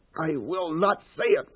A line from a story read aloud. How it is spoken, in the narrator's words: Paul gasped